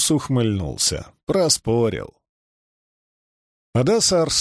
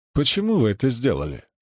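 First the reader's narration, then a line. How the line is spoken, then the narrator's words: Plain. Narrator (Russian): спросил Кит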